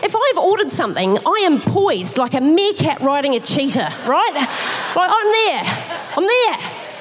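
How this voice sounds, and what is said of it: Speaks with a noticeable accent. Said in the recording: “I know I've got an accent, but I think that was recognisable.”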